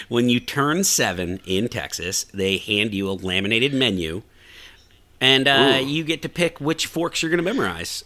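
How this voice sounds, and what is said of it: Put-on Texan twang. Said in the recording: “you got a little bit of an accent going. Did you do that to fit in Texas? ... you're getting a little twang. You get a little twang. ... I'm just pretending”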